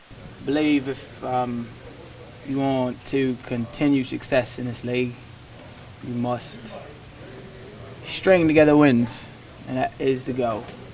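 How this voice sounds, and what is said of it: Unusual put-on accent. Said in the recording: “decided to do his media interviews in a very unique accent”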